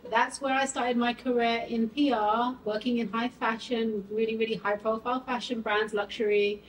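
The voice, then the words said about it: British accent. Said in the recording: “I have an accent, so I'm originally from the UK”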